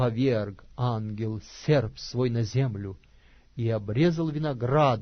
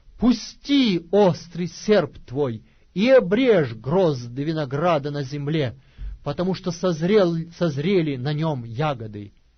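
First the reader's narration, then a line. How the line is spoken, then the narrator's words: Angel's great loud cry. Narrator (Russian): иной ангел с великим криком воскликнул, говоря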